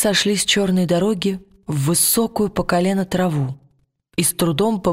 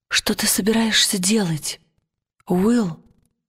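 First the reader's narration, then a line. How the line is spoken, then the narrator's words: Quiet question. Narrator (Russian): тихонько спросила Лира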